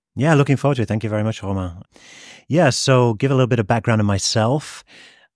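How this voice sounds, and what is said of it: British accent. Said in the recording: “As you can probably tell from my accent, I'm from the UK originally”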